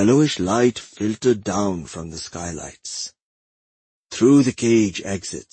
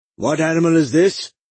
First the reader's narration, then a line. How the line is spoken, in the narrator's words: he bellowed above Mahisha snarling